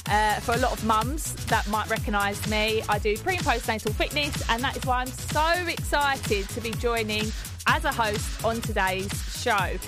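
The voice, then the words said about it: Essex accent. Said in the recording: “my Essex twang”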